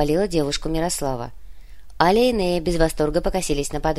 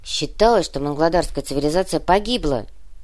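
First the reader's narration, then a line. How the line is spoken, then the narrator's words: Grumbling. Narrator (Russian): пробурчала Аля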